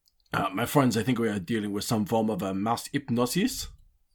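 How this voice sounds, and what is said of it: Strange put-on accent. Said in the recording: “I was worried my accent would make that impenetrable. ... why are you talking so strange?”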